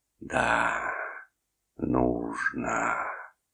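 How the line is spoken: Sleepy contented hiss. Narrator (Russian): прошипел он сонно и довольно

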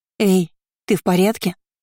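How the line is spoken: Frightened, muffled as underwater. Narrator (Russian): испуганно спросила Шарлотта совсем рядом, но до Кейры ее голос донесся, словно из-под толщи воды

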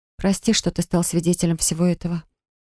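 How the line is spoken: Breathless, struggling for composure. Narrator (Russian): выдохнула я, стараясь взять себя в руки

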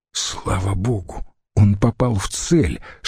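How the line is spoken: Whisper. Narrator (Russian): шепнул Децимбрут

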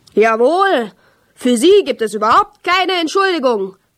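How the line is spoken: Fat man bellowing. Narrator (German): brüllte der Fettwanst

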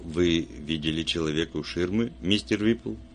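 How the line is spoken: Soft speech. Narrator (Russian): Вульф мягко сказал

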